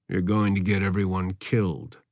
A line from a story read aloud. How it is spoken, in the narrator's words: muttered the Colonel through gritted teeth